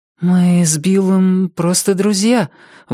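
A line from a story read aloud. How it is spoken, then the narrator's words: Forced, embarrassed. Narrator (Russian): выдавила Рози, чувствуя себя последней дурой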